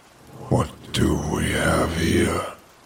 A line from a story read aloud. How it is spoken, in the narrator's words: Damien asks in his guttural voice